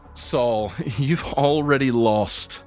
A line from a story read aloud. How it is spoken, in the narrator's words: Braxton kind of chuckles, and he says